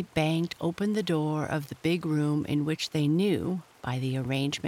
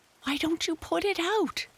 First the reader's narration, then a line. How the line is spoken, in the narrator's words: shrieked Amy